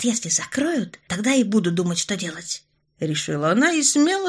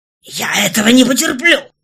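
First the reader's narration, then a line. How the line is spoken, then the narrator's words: Hateful growl. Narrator (Russian): рычал мужчина, в его голосе сквозила такая ненависть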